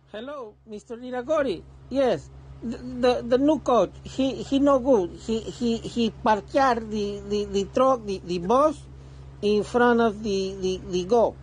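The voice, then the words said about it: Thick put-on Spanish accent. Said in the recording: “in that Spanish, thick Spanish accent”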